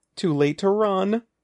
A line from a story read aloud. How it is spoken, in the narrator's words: Andy shrieked